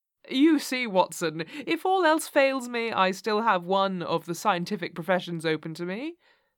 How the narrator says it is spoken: said Holmes, laughing

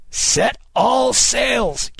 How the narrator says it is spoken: Kid cried

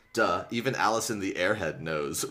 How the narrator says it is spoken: Rachel said

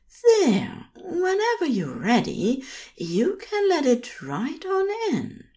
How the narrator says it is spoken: He purrs

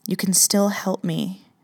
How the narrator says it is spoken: I said quietly

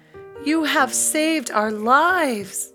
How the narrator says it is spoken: they exclaimed

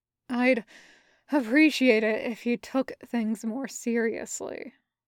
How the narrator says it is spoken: the Reaper says, but it's more like sighs

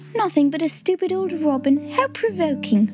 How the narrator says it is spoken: cried Kate

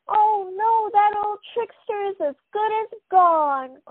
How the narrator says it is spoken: cried Zoe

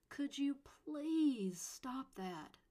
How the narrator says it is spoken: Sophie begged

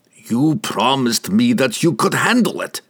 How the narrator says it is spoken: Pook growled at him

